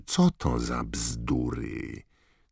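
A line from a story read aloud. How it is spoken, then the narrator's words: Hiss. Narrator (Polish): syknął Snape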